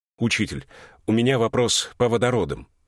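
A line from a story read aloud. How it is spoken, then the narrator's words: Clipped, abrupt. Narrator (Russian): произнес он отрывисто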